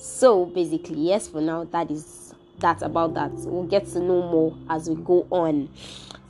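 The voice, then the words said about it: Shaky voice from a cold. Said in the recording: “My voice is a bit shaky. I'm down with cold.”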